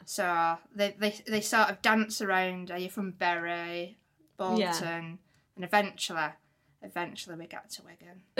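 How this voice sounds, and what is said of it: Northern English Wigan accent. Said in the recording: “you noticed a twang ... People still get confused by my accent”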